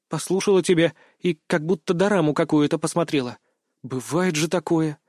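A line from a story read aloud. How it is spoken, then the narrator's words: Sighing. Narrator (Russian): вздохнула девушка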